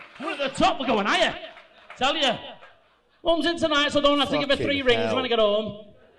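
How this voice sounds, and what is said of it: Bolton accent, imitates another person's voice. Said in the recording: “The voice. ... It's just a man with a Bolton accent.”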